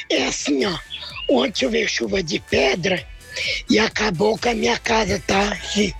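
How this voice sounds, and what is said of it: Very hoarse voice. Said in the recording (Portuguese): “me desculpe que eu tô com as minhas vozes assim ... Tá rouquinho? ... Muito rouca.”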